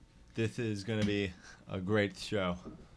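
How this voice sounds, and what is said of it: Imitates another person's voice. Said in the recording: “That's my Cody impression.”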